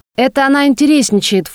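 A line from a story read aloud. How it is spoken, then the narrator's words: Snorting. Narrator (Russian): фыркнул брат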